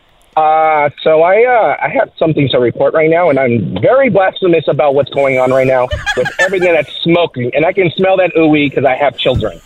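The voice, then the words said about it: Put-on stereotypical white person voice. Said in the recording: “my Caucasian voice ... Can you do that voice?”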